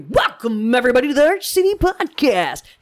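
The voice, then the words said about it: Imitates another person's voice. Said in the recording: “my impersonation of him ... It was abbreviated ... not a twang, but it's the Hold inflection.”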